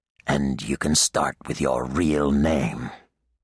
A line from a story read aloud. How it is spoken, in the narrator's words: adding, acidly